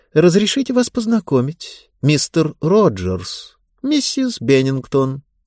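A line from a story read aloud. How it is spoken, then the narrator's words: Calm. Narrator (Russian): Элли спокойно сказала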